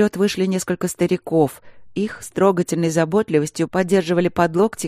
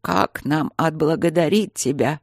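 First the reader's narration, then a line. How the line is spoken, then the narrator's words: Old man's creaky voice. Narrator (Russian): проскрипел тот же старик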